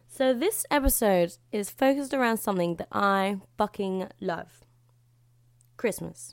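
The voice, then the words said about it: Slightly hoarse, strained voice. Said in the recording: “lost my voice a tiny bit. You may be able to hear. ... being a yelly person. I talk too loud.”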